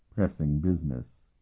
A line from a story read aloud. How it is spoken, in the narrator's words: Martell murmured